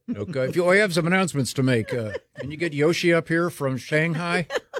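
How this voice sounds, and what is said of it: Thick put-on accent, airport announcer. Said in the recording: “they choose the people based on their the thickness of their accent.”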